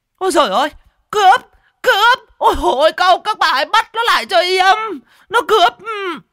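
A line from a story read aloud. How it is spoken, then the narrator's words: Panicked screaming, out of breath. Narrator (Vietnamese): Vừa cố gắng khênh cái lớp mỡ bì bạch trên người, bà vừa gào thét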